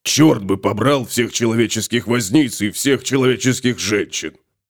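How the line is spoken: Grumbling. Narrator (Russian): пробурчал Готрек

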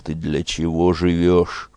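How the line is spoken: Stern question. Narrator (Russian): Спрашивал строго сына

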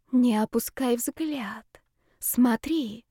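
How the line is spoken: Girl's whisper, very close. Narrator (Russian): шепот девушки раздался совсем рядом

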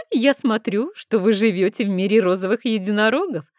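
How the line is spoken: Laughing. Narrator (Russian): рассмеялась

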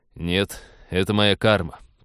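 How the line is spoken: Grumble. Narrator (Russian): проворчал капитан

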